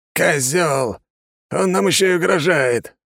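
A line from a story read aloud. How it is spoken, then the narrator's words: Angry growl. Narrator (Russian): прорычал Андрей Адамович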